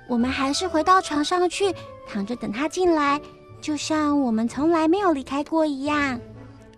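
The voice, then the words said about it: Quiet, hushed voice. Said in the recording (Chinese): “小声告诉弟弟”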